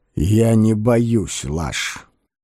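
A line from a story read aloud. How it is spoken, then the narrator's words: Muffled reply. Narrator (Russian): отозвался декан глухо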